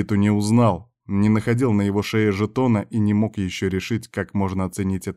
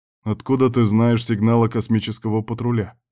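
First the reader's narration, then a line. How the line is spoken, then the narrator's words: Plain. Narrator (Russian): спросил Берг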